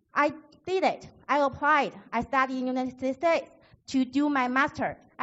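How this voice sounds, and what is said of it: Non-native English accent. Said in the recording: “I have double master degrees, but I still have my accent.”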